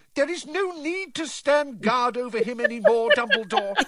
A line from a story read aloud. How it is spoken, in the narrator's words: she shrieked